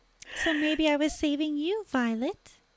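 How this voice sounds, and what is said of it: High sweet childlike voice. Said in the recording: “her voice is higher and sweeter ... I can't do a high voice ... Because I'm Betty Boop and I'm a little child ... It's a little Umbridge-esque”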